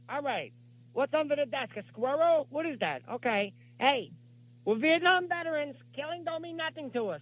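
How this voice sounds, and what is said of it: Young Al Pacino, high voice. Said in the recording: “the Pacino that we all know is deep ... there are two of this voice ... When I was much younger, I had a very high voice. If you watch Dog Day Afternoon”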